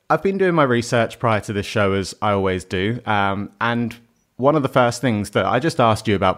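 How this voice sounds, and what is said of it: Australian-sounding accent. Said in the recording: “I now sound very Australian ... you do sound more Australian than I do”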